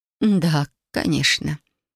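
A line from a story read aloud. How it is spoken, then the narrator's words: Dull, lifeless voice. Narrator (Russian): тусклым, безжизненным голосом произнесла свекровь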